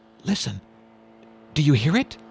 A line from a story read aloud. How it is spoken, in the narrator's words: John whispered